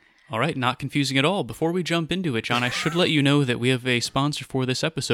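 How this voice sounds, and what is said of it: Usual voice. Nothing is said of it.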